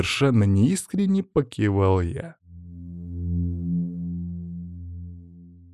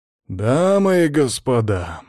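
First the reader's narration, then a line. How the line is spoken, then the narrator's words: Exclamation. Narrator (Russian): воскликнул Азарьев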